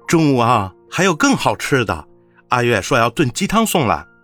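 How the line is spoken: Laughing. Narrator (Chinese): 陈谷笑道

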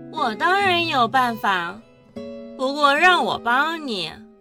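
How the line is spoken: Slow, coldly amused. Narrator (Chinese): 齐雨荣嘴角还是噙着一抹冷冷的笑意，缓缓地说

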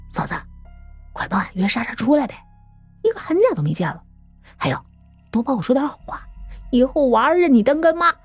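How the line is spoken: Quiet. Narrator (Chinese): 张鹏……小声说

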